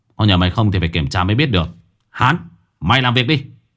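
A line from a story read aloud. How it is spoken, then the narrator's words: Raised voice. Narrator (Vietnamese): Một kẻ cao giọng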